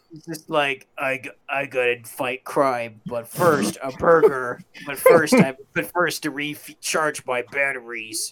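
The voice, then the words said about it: Exaggerated superhero voice. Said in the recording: “He's already speaking in a superhero voice.”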